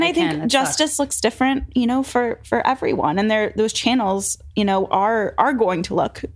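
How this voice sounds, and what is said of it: Usual voice. Nothing is said of it.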